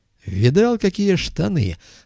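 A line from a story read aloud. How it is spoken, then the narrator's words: Joyful exclamation. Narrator (Russian): радостно воскликнул артист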